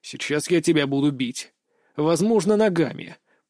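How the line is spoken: Growling. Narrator (Russian): прорычал я

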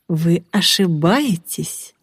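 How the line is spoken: Gentle, affectionate. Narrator (Russian): ласково ответил Ариман

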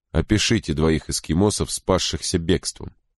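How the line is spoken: Plain. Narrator (Russian): сказал Крози

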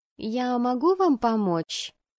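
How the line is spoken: Timid question. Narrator (Russian): робко поинтересовалась секретарша

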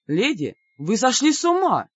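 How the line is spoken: Astonished exclamation. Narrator (Russian): пораженно воскликнул король

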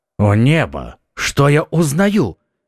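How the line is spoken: Exclaiming. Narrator (Russian): воскликнул герцог

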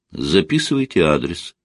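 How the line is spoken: Plain. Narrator (Russian): сказала Людмила

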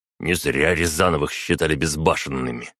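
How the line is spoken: Grumbling. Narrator (Russian): ворчал барон

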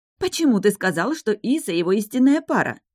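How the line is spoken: Indignant repetition. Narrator (Russian): возмущенно повторила староста

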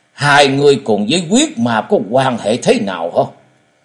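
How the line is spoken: Fierce voice. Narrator (Vietnamese): Tàn hồn thái tuế với giọng hung dữ nói

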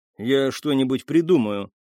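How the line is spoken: Plain. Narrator (Russian): сказал он

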